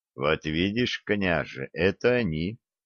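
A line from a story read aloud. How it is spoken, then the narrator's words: Quiet. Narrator (Russian): опять тихо сообщил Олег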